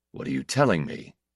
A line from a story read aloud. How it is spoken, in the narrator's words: he demanded hoarsely